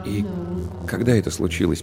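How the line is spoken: Quiet question. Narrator (Russian): поинтересовался он тихо

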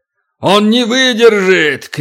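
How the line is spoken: Giant's alarmed shout. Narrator (Russian): крикнул великан, понявший, наконец, что делает Туран

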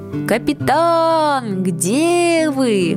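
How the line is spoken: Shouting. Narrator (Russian): Давно уже Летика кричал

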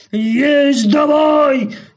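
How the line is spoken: Growling voices in unison. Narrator (Russian): рычат пришельцы разом

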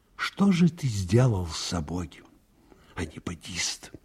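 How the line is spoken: Quiet, pained. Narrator (Russian): говорил Аниськин тихо и болезненно

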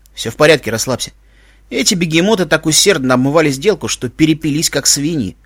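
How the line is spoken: Smirking grunt. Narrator (Russian): хмыкнул Иван

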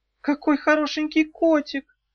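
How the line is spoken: Cooing. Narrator (Russian): проворковала она

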